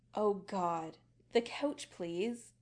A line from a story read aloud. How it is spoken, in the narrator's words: Adam groans